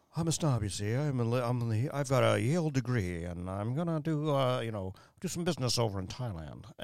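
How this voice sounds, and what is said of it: Snobby put-on transatlantic accent. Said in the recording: “a transatlantic accent kind of will come over us ... he plays like ... It's about that good, as mine was.”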